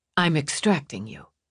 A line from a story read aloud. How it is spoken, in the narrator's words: he murmured near her ear